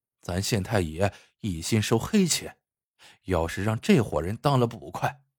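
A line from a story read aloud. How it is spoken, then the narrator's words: Soft sigh. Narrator (Chinese): 门口有路人轻声叹道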